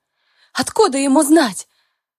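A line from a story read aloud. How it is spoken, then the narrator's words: Hoarse. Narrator (Russian): Хриплю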